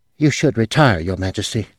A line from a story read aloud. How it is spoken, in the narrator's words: one of the soldiers said sleepily